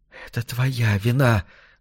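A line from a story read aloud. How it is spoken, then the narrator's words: Hissed. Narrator (Russian): зашипела она на него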